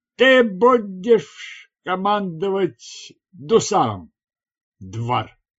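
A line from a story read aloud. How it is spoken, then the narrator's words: Slurred announcement. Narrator (Russian): объявил он заплетающимся языком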